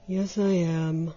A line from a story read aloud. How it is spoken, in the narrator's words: sighed the other